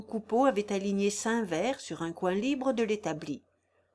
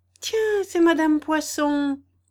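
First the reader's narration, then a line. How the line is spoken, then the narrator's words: Exclaimed. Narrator (French): s'écria Gervaise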